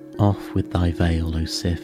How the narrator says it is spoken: he said

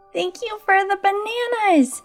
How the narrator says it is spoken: chirped

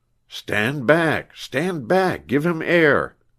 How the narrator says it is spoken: cried Jasper

